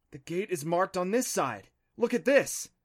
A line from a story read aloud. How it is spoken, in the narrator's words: excitedly